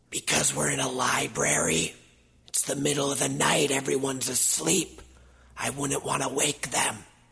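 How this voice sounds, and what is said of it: Whispering voice. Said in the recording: “Why are you whispering? ... You always whisper.”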